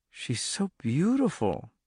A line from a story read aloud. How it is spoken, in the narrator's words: Charlie whispered